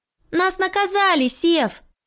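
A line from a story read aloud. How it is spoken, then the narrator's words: Shouted through open window. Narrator (Russian): крикнула Ася в раскрытое окно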